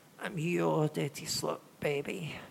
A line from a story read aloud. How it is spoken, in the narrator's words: she moaned